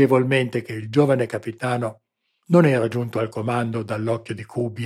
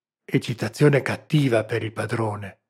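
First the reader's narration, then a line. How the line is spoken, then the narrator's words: Whispered. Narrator (Italian): sussurrò il servo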